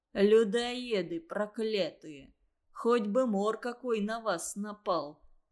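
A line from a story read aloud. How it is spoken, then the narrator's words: Grumbling. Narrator (Russian): ворчал Петя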